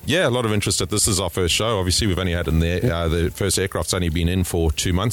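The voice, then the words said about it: Slight foreign accent. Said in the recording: “I noticed a little bit of an accent there”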